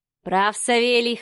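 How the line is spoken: Snorting. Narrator (Russian): хмыкнул Михаил

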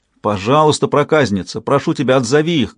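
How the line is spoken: Shouting. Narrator (Russian): крикнул Уинтроу

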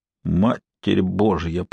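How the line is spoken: Muttered. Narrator (Russian): пробормотал Армандо де Труэйе

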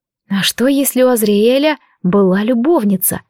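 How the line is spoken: Muttering. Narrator (Russian): пробормотала

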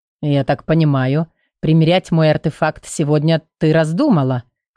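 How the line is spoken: Smirking grunt. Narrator (Russian): хмыкнул Квон

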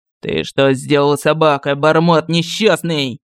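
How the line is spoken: Familiar growl close to ear. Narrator (Russian): прорычал над ухом до боли знакомый голос

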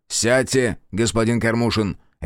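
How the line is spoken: Sharp command. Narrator (Russian): резко приказал ему Терентьев

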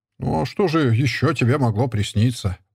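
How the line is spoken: Grumbling. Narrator (Russian): проворчал Дубко

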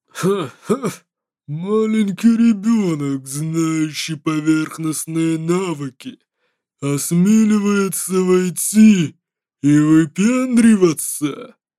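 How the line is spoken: Hooting owl-like laughter. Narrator (Russian): Лэй Гун Фун хохотал, как сова

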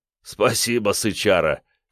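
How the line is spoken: Chuckle. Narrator (Russian): хохотнул тот

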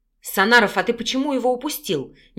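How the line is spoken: Displeased bark. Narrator (Russian): недовольно рявкнул Андрей

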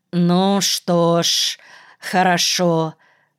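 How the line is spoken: Drawn-out, noncommittal. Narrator (Russian): протянул Никольский неопределенно

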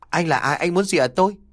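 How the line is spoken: Trembling frightened question. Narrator (Vietnamese): Nhàn run rẩy hỏi

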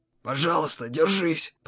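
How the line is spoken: Whispered. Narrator (Russian): прошептал

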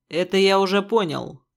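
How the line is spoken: Displeased grumbling. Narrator (Russian): недовольно проворчал Черный

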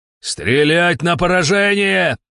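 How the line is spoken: Yelling. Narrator (Russian): заорал кто-то

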